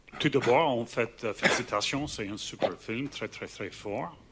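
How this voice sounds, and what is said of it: Slight Irish accent speaking French. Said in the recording (French): “la réaction d'un journaliste irlandais... il a un petit accent”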